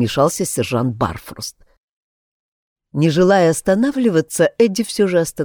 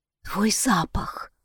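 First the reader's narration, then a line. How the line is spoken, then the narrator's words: Whisper. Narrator (Russian): прошептала она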